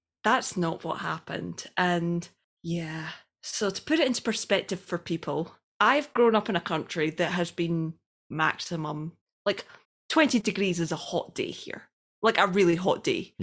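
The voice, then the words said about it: Scottish accent. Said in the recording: “Taps aff is Scottish for tops off. We just say it weird because we've got a funny little accent.”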